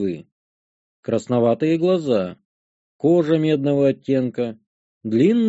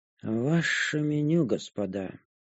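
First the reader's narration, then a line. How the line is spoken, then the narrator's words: Indifferent mumble. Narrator (Russian): пробормотала драколюдка равнодушным тоном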